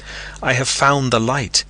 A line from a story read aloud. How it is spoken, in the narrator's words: he cried